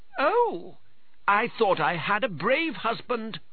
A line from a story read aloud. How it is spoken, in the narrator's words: cried Pertolot